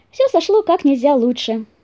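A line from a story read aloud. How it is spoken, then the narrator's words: Cheerful. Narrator (Russian): весело сказал зайка-пекарь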